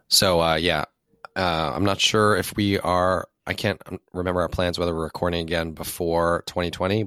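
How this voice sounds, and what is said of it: Strained, unwell voice. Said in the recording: “My voice isn't cooperating ... Feel better”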